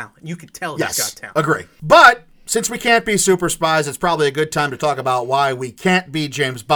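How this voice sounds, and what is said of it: Usual voice. Nothing is said of it.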